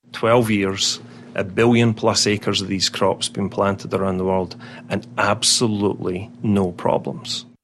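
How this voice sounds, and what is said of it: Scottish accent. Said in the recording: “You can tell he wasn't born here ... a Scottish brogue ... it's more accurately a burr”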